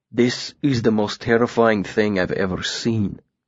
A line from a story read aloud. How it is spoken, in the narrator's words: Willem said quietly